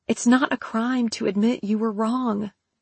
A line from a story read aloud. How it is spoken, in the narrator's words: Tessa pleaded, hoping to make an impression on Rosa